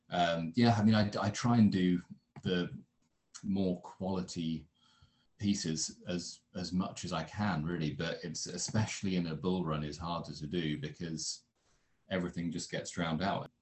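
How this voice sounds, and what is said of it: British accent. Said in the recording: “As you can probably tell from his accent, ... is reporting from the UK”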